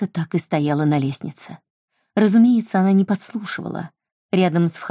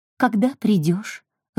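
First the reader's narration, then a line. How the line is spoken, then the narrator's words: Timid question. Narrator (Russian): робко спросила она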